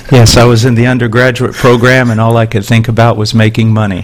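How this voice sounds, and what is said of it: Southern American accent. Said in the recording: “as you might have just picked up from that accent, is from Alabama”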